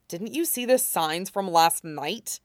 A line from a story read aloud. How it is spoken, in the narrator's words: He hisses